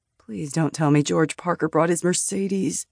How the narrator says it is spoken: Landon mumbled

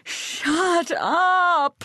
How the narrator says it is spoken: At sobbing, screams

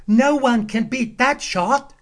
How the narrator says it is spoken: a boy cried

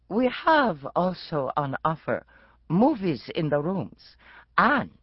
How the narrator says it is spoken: Patel added, in a masterpiece theater accent

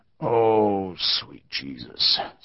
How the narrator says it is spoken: Starbuck groaned

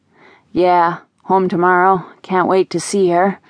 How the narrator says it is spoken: Ryan said with a sigh

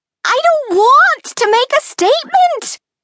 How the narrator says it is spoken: shrieked

